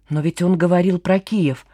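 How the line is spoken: Terrified mumble. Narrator (Russian): пробормотала Маша, сглатывая слюну, отравленную ужасом

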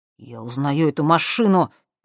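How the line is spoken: Through gritted teeth. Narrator (Russian): процедил сквозь зубы Максим

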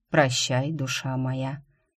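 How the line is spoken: Sad, smiling. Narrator (Russian): печально улыбнулся друид

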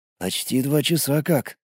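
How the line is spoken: Quiet answer. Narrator (Russian): ответил я так же тихо

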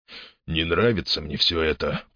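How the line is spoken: Grumbled. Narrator (Russian): проворчал Виктор

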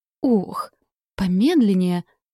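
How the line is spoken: Exclaimed. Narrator (Russian): воскликнула я, с трудом подстраиваясь под широкий шаг Орланда

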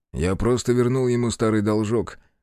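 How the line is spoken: Short laugh. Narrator (Russian): хохотнул

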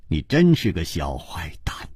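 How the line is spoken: With a sigh. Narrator (Chinese): 楚留香像是叹了一口气说

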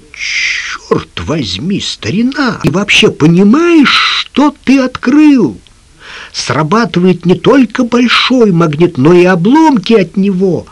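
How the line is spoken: Exclaimed. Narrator (Russian): воскликнул

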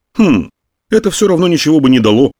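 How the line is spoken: Grumbling. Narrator (Russian): проворчал наконец Мойдль

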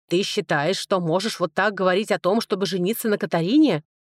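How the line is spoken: Angry snap. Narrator (Russian): Зло бросил страж

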